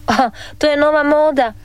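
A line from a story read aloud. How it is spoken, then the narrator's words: Laughing father. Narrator (Croatian): nasmija se tata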